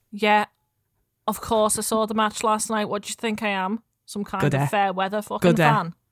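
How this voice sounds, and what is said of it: Attempted Liverpool accent. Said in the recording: “Manchester accent while I'm Manchester. Doing a Liverpool accent. It's very ... difficult.”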